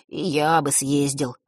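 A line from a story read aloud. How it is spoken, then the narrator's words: Sighing. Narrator (Russian): вздохнул Ник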